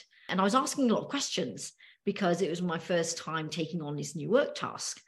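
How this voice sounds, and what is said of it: British accent. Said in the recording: “you have a lovely accent ... it's a British accent. I'm originally from the UK ... you're very lucky to have that accent”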